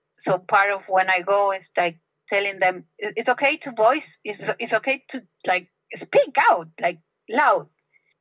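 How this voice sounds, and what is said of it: Non-native English accent. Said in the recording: “They invite me to teach English with my accent ... Me with my accent. Who's gonna understand anything?”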